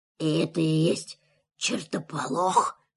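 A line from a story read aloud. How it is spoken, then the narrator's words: Whispered. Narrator (Russian): шепнул он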